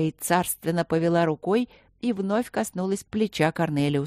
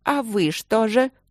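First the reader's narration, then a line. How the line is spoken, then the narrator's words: Sudden thundering voice. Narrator (Russian): вдруг снова прогремел голос королевы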